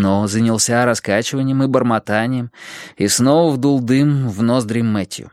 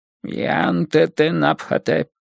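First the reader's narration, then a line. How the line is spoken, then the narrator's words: Demon muttering. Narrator (Russian): бормотал демон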